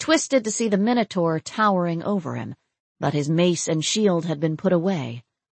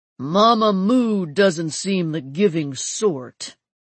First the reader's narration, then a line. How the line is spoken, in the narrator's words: rumbled a deep voice